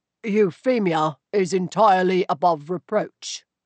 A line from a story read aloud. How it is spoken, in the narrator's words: he said stiffly